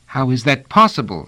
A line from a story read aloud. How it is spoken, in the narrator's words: asked Pellerat anxiously